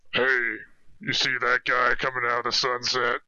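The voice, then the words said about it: Very deep frog character voice. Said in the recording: “character voice ... I'm a frog, so I'm gonna try to go really deep”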